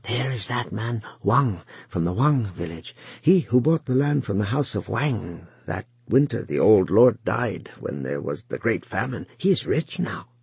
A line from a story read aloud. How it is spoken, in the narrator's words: he could hear a man whisper to another